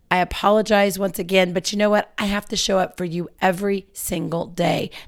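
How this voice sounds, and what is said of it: Low, slow voice. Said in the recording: “my voice is a little bit low and slow”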